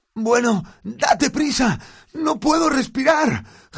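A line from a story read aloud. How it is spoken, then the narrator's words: Gasping, chest squeezed. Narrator (Spanish): jadeó Harry mientras la planta le oprimía el pecho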